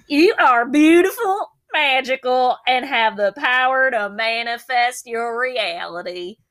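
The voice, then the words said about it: Put-on country accent. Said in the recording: “You can just say it in a real country accent.”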